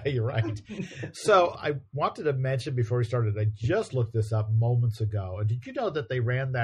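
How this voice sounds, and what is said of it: Usual voice. Nothing is said of it.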